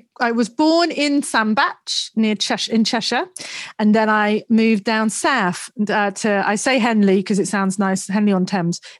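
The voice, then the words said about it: Mixed Northern and Southern English accent. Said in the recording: “my accent is a real mishmash of Northern and Southern”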